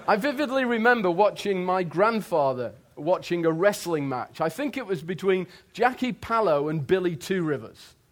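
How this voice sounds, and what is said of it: English accent. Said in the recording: “I'm an Englishman. My accent tells you that.”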